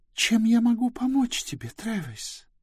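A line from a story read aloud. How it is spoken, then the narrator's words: Warm, smiling. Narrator (Russian): сказала Близ, ласково улыбаясь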